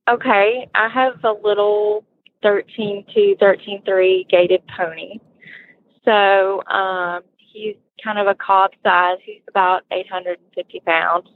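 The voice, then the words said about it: Southern Alabama drawl. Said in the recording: “I thought I detected a slight southern drawl. ... Probably more than slight. ... I love an Alabama accent.”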